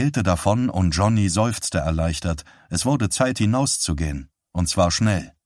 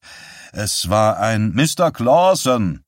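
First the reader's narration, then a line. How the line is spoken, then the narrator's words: Impatient shout. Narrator (German): rief der Polizist ungeduldig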